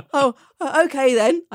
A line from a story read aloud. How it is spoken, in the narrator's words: I stammered frantically